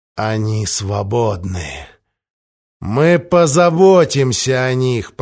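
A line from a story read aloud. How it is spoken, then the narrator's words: Through gritted teeth. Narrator (Russian): процедил Галанит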